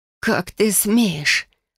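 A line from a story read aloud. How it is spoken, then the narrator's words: Hoarse, powerful voice. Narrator (Russian): Голос вырвался с хрипом, но в нем была такая сила, что он мог бы расколоть стекло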